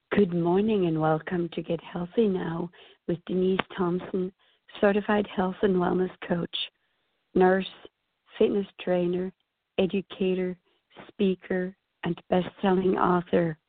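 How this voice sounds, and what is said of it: Voice not yet back to normal. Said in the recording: “as you can tell from my voice, I'm still not totally back to quote-unquote normal”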